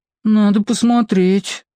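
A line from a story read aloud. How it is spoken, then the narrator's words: Sad. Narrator (Russian): печально сказала Юля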